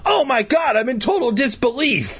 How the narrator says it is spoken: he bellowed

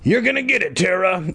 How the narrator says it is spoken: I grumbled

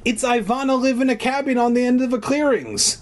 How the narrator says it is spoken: Marissa exclaimed happily

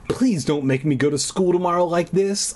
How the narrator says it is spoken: I pleaded

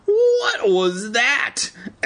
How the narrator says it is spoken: Evan cried

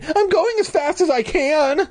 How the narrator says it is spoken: I screamed

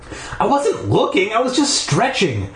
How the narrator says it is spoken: I shouted back

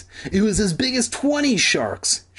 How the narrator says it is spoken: Sheena exclaimed

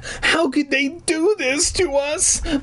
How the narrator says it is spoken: I wailed

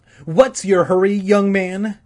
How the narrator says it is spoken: she snapped

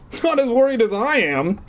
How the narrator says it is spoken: Eddie exclaimed like a little bitch

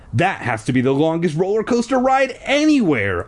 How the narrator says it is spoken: I exclaimed

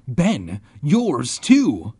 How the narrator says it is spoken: cried

